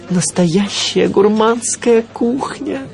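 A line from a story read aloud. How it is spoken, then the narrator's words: Breathless exhale. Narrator (Russian): выдохнул я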